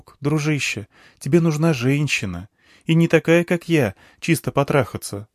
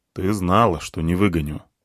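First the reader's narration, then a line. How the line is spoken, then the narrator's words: Gloomy. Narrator (Russian): мрачно сказал я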